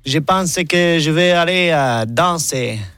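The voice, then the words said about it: Old Marseille accent impression. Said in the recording (French): “j'ai reconnu un vieux accent marseillais”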